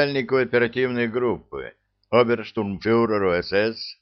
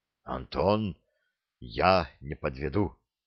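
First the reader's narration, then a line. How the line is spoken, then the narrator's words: Quiet, solemn. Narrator (Russian): тихо и торжественно сказал Вячеслав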